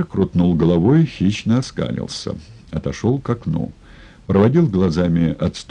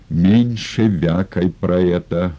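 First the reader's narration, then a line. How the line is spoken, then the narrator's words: Father's growl. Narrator (Russian): рыкнул отец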